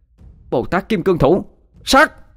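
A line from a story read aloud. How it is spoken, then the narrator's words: Shouting. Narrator (Vietnamese): Ngọc Thanh hét lên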